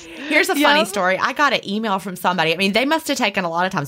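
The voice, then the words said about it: Southern American drawl. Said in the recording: “I really love your Southern drawl ... how much they hate my Southern accent. ... It's just how I talk.”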